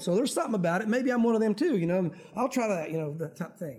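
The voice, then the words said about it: Southern country accent. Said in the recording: “I don't know why I'm talking so country today.”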